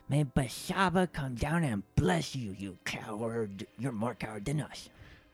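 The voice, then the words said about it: Silly put-on character voice. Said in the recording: “stupid voice”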